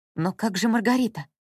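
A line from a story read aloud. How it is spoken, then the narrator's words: Whispered. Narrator (Russian): прошептала Анна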